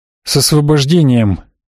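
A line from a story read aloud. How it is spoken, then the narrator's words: Tired grumble. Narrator (Russian): как-то устало буркнул Маркус Пуэр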